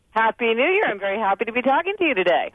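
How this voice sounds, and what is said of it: Cheerful, happy-sounding voice. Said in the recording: “You sound so happy. ... You really do sound happy.”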